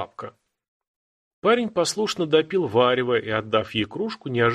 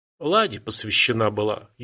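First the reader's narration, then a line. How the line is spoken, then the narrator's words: Barely audible old woman. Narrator (Russian): еле слышно ответила бабка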